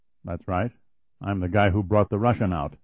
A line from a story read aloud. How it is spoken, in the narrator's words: his visitor said calmly